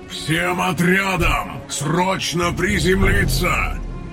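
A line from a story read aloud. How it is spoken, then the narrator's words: Deafening roar over comms. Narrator (Russian): Взревел Тейрн по всем каналам разом так громко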